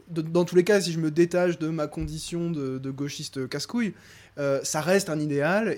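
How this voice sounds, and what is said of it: Rural French regional accent. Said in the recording (French): “Je viens, de la campagne, moi ça s'entend, j'ai un accent de. ... de la campagne.”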